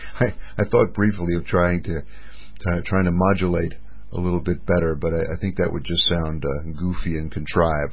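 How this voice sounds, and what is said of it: Flat monotone speaking voice. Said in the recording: “my voice is very kind of monotone ... the monotone that Mother Nature has given me”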